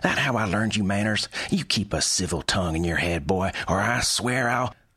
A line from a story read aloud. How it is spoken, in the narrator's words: She snapped